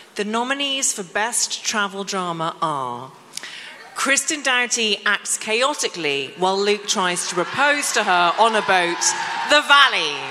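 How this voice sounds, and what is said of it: British accent. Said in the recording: “your British accent say Kristen Doughty ... It's like I've never heard Kristen sound so elevated in my life.”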